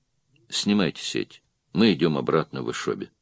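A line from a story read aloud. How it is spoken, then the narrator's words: Said wearily. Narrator (Russian): устало сказал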